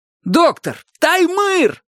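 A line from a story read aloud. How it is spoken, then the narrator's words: Yelling. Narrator (Russian): заорал я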